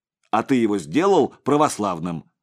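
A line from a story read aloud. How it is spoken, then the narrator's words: Suddenly angry shout. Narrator (Russian): вдруг рассердившись, закричал Игорь Савич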